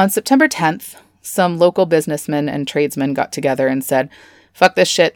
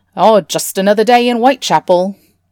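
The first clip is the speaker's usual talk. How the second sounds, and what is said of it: Poor put-on British accent. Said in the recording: “That was my British accent. It's not good.”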